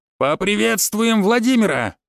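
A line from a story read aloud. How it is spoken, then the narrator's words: Yell. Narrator (Russian): заорал Ефим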